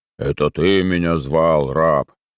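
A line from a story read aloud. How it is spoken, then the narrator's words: Deep bass voice. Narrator (Russian): басом передал речь нового персонажа Срачкоров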